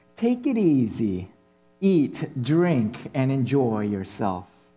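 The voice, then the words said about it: Put-on Italian accent. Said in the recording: “why did I use an Italian accent?”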